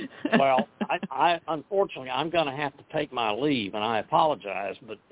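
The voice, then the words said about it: Hoarse, fading voice. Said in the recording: “I am losing my voice, in case you can't tell ... It's sounding sexy to me ... this voice ain't going to last much longer”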